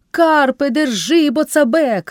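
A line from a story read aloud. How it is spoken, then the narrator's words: Father shouting at son. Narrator (Ukrainian): крикнув батько на сина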